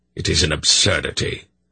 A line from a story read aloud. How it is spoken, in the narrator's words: Belgarath snapped